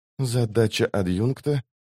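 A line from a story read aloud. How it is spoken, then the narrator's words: Quiet speech. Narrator (Russian): тихо проговорила Лорн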